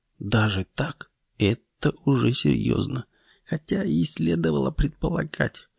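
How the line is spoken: Mutter. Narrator (Russian): бормоча

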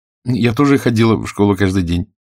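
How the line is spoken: Plain. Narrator (Russian): сказала Алиса

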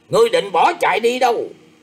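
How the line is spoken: Loud shout. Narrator (Vietnamese): Người bịt mặt quát to lên rằng

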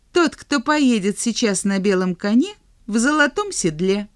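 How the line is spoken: Quick reply. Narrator (Russian): быстро ответил добрый король

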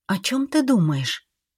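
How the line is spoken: Reproachful whisper. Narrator (Russian): с укором шепнула Эйлин

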